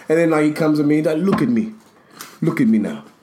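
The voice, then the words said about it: Imitated Ugandan accent. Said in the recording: “It sounds like a shitty accent, but it's not. This is actually what they sound like.”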